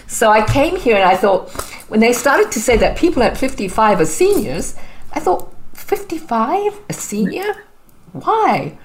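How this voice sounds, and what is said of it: Zimbabwean accent. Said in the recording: “as you can tell, I have a bit of an accent. So I'm originally from Zimbabwe.”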